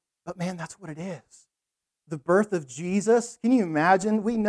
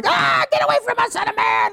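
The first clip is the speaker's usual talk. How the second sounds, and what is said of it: Screeching demon voice. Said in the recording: “that was my demon voice ... it sounds like something from The Wizard of Oz”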